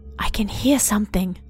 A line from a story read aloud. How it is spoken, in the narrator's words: T whispered